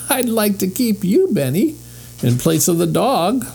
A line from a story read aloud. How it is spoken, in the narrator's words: laughed the lady